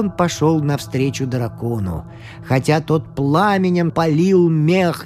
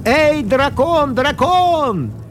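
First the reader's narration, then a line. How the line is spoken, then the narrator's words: Shouting shepherd. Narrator (Russian): крикнул чабан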